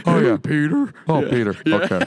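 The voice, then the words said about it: Impression of a cartoon character's voice. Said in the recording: “sounds like Joe from Family Guy... I can do Patrick Warburton... Patrick Warburton is the voice of Joe from Family Guy... You're very good”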